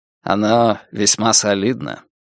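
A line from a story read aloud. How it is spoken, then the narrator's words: Calm reply. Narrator (Russian): спокойно ответил Стилман Раш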